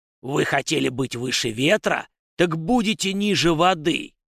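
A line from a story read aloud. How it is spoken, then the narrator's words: Thunderous whisper heard by all. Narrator (Russian): он прошептал громовым шепотом, который услышали все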